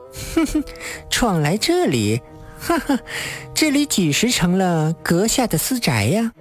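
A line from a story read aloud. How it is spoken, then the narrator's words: Wanton, taunting laugh. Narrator (Chinese): 女子浪虐笑道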